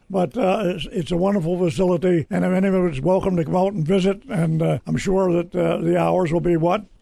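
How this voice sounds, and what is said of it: Speaker has a voice problem. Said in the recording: “my voice is,⟧ I've got a little problem with my voice today”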